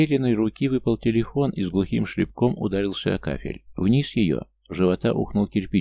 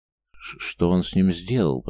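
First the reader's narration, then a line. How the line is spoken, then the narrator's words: Fearful hoarse rasp. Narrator (Russian): прохрипела Лера, боясь услышать что-то очень-очень страшное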